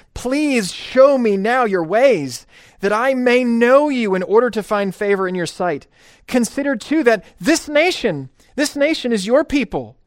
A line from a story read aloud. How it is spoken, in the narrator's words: pleading